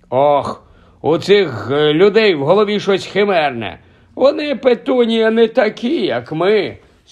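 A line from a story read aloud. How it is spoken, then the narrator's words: Sorrowful sigh. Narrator (Ukrainian): скрушно зітхнув дядько Вернон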